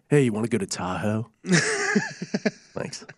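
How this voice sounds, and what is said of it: Imitates a typical Bay Area person. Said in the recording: “my imitation of every person in the Bay Area”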